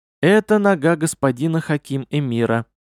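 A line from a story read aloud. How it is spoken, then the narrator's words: Calm statement. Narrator (Russian): спокойно констатировала Зайри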